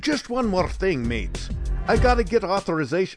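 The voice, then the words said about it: Poor Australian accent, sounds Irish. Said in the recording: “I'm not doing a very good ... Australian accent. ... got a little Irish in him.”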